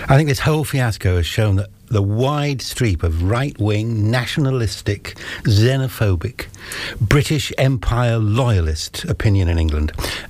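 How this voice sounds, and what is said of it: English accent. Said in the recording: “The accent gives it away in terms of your links cost channel”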